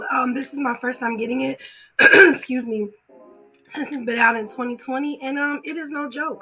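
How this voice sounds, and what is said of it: Raspy, hoarse voice. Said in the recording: “I sound a little raspy at the voice. I'm coming off of COVID.”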